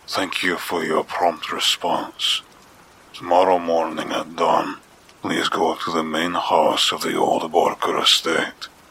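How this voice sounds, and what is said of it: Deep gravelly voice, foreign accent. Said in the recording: “a deep, gravelly voice, inflected with some kind of foreign accent.”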